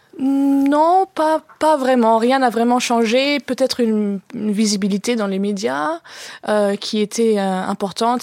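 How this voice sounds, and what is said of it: German accent in French. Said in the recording (French): “cet accent allemand, là, tu le perdras pas”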